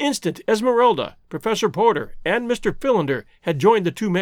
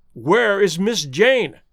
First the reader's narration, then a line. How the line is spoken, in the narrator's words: cried Clayton